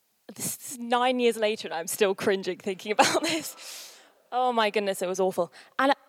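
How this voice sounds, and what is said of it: Usual voice. Nothing is said of it.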